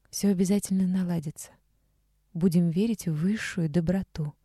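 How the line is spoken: Quiet. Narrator (Russian): тихо сказала Вика

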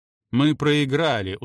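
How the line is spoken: Tired. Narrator (Russian): устало произнес Гелен

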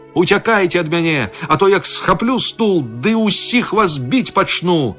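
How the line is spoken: Shouting. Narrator (Belarusian): ён крычыць

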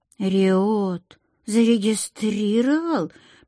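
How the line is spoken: Drawling question. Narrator (Russian): протянула она

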